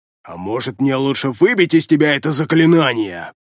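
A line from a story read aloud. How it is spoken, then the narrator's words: Snapping retort. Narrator (Russian): Огрызнулся электроник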